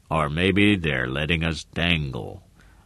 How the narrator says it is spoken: Ross murmured

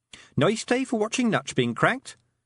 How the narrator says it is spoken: said Tiffany cheerfully

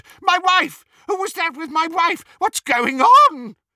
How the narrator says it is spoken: the real Reg Cattermole screamed

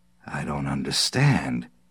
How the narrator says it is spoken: Vecchi muttered

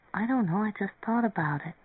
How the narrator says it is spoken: Marianne murmured

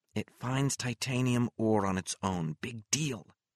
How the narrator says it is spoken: Mary said equally quietly

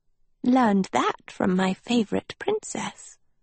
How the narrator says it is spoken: Sophie said softly

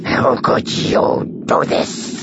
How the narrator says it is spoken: He snarled at Zuckus

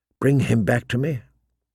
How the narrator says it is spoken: she whispered to Miramar's door

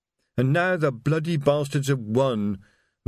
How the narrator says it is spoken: moaned Reg

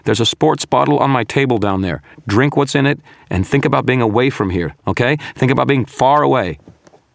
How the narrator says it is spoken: I shouted

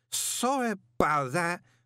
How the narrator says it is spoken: he slurred

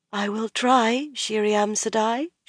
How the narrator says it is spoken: she said faintly

